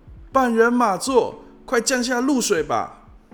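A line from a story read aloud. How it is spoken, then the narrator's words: Shouting while running. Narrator (Chinese): 边跑边喊着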